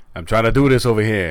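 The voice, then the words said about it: Sopranos-style New Jersey accent. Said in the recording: “Sopranos ... that's a New Jersey accent, not an Italian accent”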